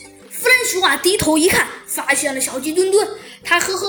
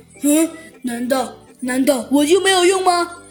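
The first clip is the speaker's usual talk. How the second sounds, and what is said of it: Quiet mumbling voice. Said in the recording (Chinese): “小声的嘟囔了一句”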